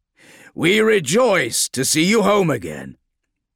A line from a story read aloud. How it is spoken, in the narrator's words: said, speaking loudly over the rising wind